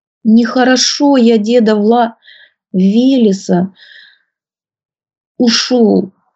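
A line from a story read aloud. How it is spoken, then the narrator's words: Tearful upset babbling. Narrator (Russian): сквозь слезы пролепетал расстроенный Василек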